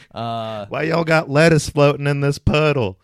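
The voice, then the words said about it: Put-on rural-sounding accent. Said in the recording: “moved to the city but retained the accent ... I got unique accent”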